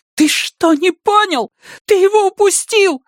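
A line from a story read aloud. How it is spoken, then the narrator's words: Shouting. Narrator (Russian): закричала Вики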